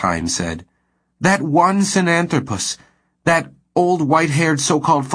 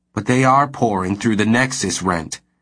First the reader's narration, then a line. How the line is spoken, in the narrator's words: Crivelli said coldly